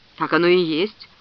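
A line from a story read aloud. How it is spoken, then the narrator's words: Grim. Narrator (Russian): мрачно произнес Грегор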